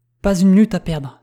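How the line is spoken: Exclaiming. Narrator (French): s'écria M

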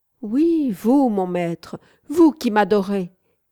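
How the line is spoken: Contemptuous shout. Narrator (French): cria-t-elle d'un ton méprisant

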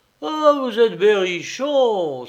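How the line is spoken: Exclaimed. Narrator (French): s'écria-t-il

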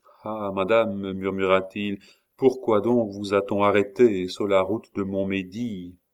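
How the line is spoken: Sighing after a pause. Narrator (French): resta muet un instant, puis poussant un soupir

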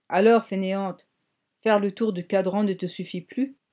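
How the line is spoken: Grumbled. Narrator (French): grommela-t-il

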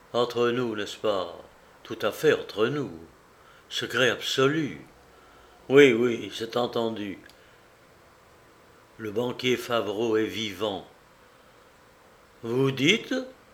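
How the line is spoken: Exclaimed. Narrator (French): s'exclama M

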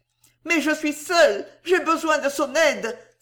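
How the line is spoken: Child's tearful trembling cry. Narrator (French): s'écria l'enfant d'une voix tremblante de larmes

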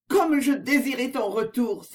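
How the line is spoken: Exclamation. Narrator (French): s'écria-t-elle

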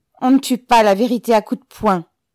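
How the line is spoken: Shouted. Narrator (French): cria Ribine

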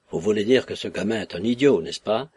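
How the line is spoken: Grumbling. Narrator (French): grommela M

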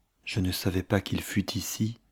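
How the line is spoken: Murmur. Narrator (French): murmura-t-elle

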